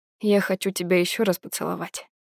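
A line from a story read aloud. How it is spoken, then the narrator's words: Mumbling against a cheek. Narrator (Russian): бормочу, касаясь губами мягкой и тёплой щеки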